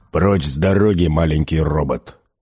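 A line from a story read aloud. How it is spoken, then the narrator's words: Growl. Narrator (Russian): прорычал он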